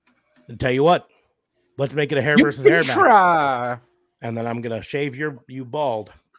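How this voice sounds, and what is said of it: Imitates another person's voice. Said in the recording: “That was a really good Cameron Grimes impersonation.”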